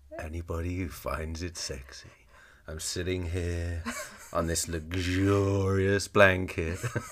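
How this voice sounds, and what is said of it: Exaggerated sultry, seductive voice. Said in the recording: “putting on my extra sexy voice”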